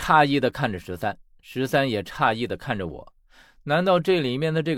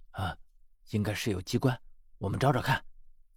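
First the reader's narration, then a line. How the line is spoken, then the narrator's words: Whispering. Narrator (Chinese): 他用我同样小声的语气说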